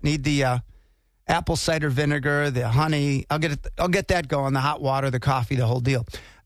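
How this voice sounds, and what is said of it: Slightly hoarse voice. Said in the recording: “My voice is a little subpar today. A little bit hoarse”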